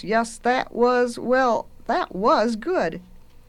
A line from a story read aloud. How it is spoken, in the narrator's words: said in a rather faint voice